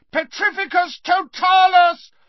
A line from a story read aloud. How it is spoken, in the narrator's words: Harry bellowed again